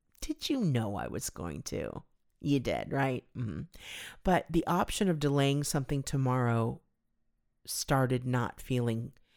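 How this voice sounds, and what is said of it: Choked-up, emotional voice. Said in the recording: “I'm getting choked up again”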